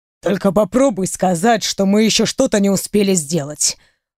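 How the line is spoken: Man growling. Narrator (Russian): прорычал он

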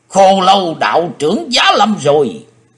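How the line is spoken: Joyful crowd shouting. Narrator (Vietnamese): Khắp sân tràn có nhiều tiếng quát hoan hỷ vang lên

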